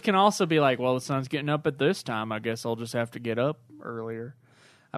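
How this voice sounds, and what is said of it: Put-on Southern accent. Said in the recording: “the farmer has a southern accent”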